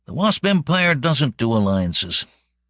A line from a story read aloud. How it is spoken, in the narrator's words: Nero said with a harsh laugh